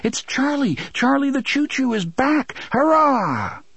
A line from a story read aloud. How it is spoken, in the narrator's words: they cried